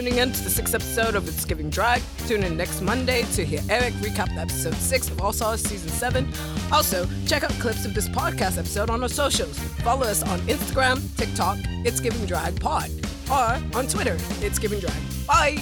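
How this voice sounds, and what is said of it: Fake English accent, manly voice. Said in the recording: “in a manly voice? ... he's gonna have a fake English accent”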